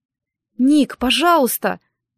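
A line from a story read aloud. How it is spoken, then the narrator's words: Pleading. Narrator (Russian): взмолилась я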